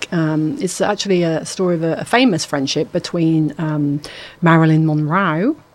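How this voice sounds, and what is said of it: Put-on Australian accent. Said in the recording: “Don't know why I did that in an Australian accent.”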